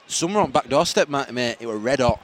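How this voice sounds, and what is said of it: Put-on Yorkshire accent. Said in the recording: “Are you from Yorkshire? What? I'm talking in a Yorkshire accent.”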